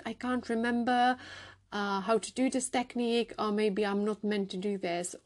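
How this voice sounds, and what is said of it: Foreign accent. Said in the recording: “I got accent. I'm a foreigner.”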